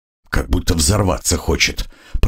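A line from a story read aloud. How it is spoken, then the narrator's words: Muttered. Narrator (Russian): пробормотал я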